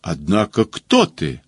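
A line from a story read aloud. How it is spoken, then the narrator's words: Angry question, general. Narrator (Russian): спрашивает сердито генерал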